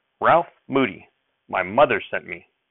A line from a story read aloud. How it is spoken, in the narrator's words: I snapped right back